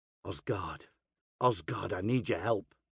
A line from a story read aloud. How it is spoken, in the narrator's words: I whisper